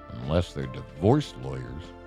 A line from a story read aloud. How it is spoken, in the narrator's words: mumbled Martin